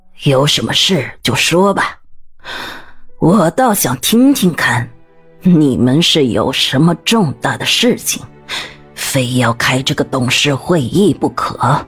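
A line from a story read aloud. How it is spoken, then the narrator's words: Stern, deep, authoritative. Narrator (Chinese): 孟凤琴 威严的沉声开口道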